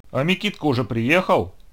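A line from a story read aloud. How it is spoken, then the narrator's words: Angry question. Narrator (Russian): сердито спросил он у Филатыча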